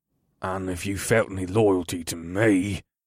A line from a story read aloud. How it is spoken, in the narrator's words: Grok growled as he tried to restrain himself